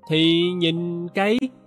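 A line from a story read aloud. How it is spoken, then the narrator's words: Stammering. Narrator (Vietnamese): Tôi ấp úng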